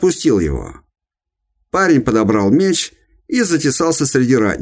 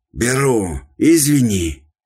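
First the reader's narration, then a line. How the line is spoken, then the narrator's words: Panting rasp. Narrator (Russian): Тяжело дыша, прохрипел дружинник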